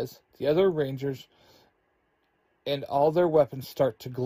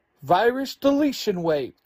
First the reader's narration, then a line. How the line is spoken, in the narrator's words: the Rangers all shout